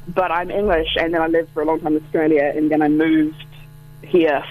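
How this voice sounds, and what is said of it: Mixed English-Australian Commonwealth accent. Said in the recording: “a bit of a strange sort of pan Commonwealth accent”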